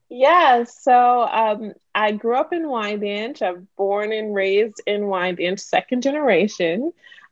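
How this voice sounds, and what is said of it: Slight Caribbean-sounding accent. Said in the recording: “Are you from Caribbean descent? ... I definitely hear a little accent”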